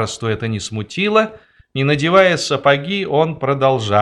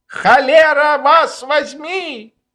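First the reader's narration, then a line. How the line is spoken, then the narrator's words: Shrill woman's shout. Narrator (Russian): визгливый женский голос, кричавший на них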